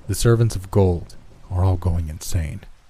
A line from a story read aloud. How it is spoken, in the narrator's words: said